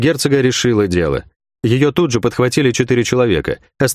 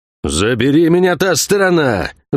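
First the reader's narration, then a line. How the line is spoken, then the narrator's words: Impatient roar. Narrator (Russian): взревел Кивилдамонтаг, теряя терпение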